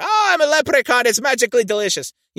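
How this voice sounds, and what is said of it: Irish leprechaun voice. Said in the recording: “Maybe you do an Irish accent.”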